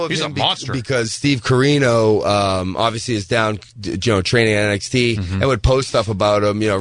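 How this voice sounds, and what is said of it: Usual voice. Nothing is said of it.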